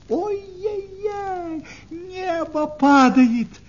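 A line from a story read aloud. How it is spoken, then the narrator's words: Shrill alarmed shout. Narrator (Russian): закричала куропаточка-крикунья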